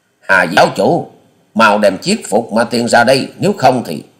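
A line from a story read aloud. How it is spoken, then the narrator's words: Thunderous shout. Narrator (Vietnamese): Quyết ma thể ghi quá nhân quát lên to như sấm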